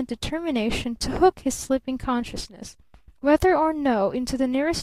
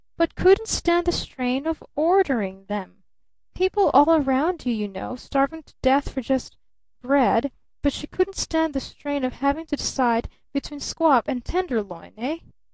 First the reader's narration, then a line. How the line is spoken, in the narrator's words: the wailing voice added significantly